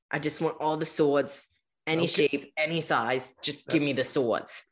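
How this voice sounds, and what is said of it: Put-on New Jersey accent. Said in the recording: “like a Jersey accent”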